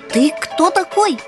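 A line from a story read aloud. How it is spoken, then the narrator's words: Shouting. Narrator (Russian): первым крикнул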